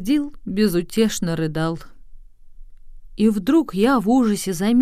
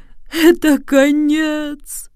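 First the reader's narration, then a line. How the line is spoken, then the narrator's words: Groan. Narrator (Russian): застонал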